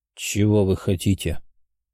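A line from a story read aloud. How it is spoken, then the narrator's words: Cold voice. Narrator (Russian): похолодевшим голосом спросил князь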